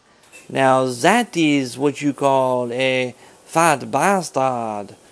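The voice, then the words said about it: Strong put-on French accent. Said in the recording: “Try to pronounce that with a strong French accent.”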